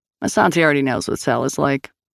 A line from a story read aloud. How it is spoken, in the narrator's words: Grace said dryly